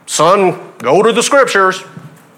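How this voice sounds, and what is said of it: Put-on Southern accent. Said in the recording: “it's with the Southern accent”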